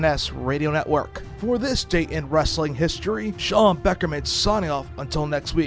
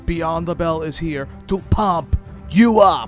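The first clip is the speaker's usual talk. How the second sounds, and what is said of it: Poor put-on Austrian-style accent. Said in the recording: “That was pretty terrible there. Your attempt at a Schwarzenegger-esque accent, it failed ... never do accent again”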